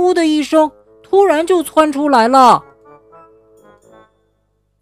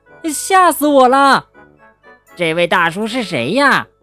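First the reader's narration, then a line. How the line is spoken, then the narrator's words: Frightened whispering. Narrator (Chinese): 三只小老鼠缩成了一团，小声的嘀咕开了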